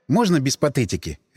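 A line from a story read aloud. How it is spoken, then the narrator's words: Sharp interruption. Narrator (Russian): резко оборвал я его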